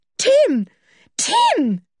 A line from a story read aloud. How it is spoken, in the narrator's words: shouted George